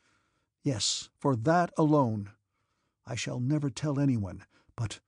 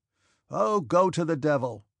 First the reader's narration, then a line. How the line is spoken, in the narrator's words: called out a voice, drowned by the laughter of the orderlies and servants